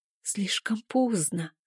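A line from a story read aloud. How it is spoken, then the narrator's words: Tearful whisper. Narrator (Russian): шепчу сквозь слезы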